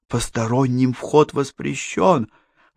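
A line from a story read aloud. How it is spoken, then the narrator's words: Female whisper. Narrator (Russian): прошептала она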